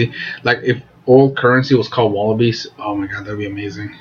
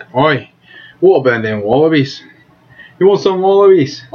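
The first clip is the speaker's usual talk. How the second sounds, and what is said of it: Put-on Australian accent. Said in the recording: “with an Australian accent”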